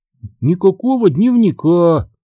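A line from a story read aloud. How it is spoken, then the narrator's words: Sighing. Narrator (Russian): вздохнула Дафна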